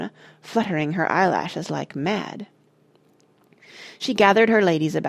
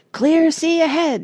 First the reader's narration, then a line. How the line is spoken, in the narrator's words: shouted Parrot